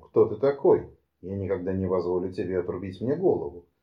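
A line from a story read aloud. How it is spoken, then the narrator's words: Exclamation. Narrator (Russian): воскликнул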